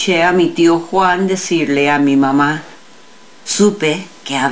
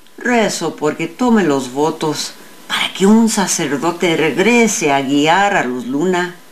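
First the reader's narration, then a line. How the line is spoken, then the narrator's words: Mother murmuring. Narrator (Spanish): murmuró mi madre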